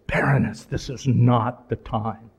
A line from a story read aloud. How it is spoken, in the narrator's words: almost just through clenched teeth, he almost hisses